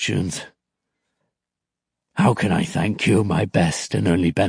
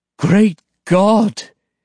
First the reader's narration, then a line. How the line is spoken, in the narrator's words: exclaimed the old man